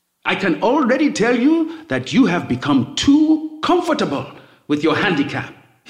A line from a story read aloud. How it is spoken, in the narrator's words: he roars